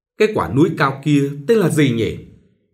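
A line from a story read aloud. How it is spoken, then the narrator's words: Pained, absent-minded question. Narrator (Vietnamese): Nhã mỉm cười đau đớn, chàng nhìn ra ngoài hỏi vẩn vơ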